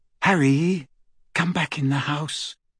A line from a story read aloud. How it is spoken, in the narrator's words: Hermione whispered